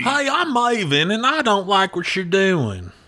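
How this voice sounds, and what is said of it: Put-on thick southern Virginia accent. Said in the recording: “surprisingly thick southern accent ... he got that Virginia accent”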